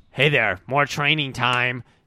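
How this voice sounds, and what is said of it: Imitates another person's voice. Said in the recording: “She does her best praying impression.”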